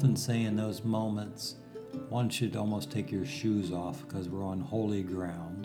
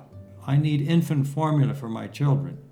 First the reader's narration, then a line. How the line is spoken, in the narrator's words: One lady cried out